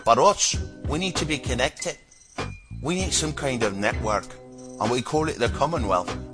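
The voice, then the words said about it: Inconsistent put-on Glasgow accent. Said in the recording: “I think I did like 3 different accents in the previous sentence. I can't really stick to one. ... I call it my Glasgow accent.”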